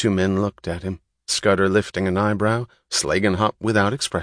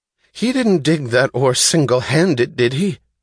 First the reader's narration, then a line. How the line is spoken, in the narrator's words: cried Philip suddenly, his voice shrill